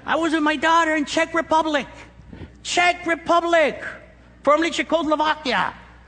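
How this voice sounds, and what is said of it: Speaks English with a noticeable accent. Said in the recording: “there's some people that hate my accent ... You put that accent on ... I've been praying that the Lord will take away my accent”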